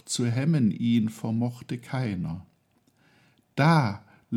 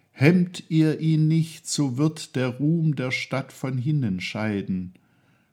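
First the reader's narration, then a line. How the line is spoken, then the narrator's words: Voice calling out. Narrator (German): eine Stimme rief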